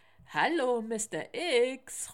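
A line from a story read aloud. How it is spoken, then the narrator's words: Call from behind cover. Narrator (German): ruft Manuel hinter der Mülltonne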